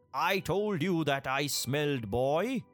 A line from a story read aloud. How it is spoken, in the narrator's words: He bellowed to his wife